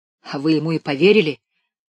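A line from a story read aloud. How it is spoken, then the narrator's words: Exclamation. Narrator (Russian): воскликнул Левка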